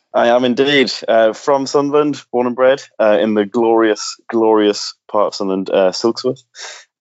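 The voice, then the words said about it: Northeast English accent. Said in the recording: “by your accent, you are from the Northeast”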